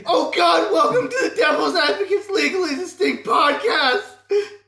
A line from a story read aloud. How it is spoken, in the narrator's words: Dave screamed as the secret vacation police stabbed his leg